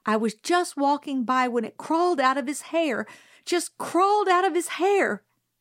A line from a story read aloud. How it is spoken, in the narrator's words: Miss Caroline said desperately